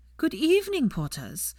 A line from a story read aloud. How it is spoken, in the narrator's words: piped up with a 1,000-watt smile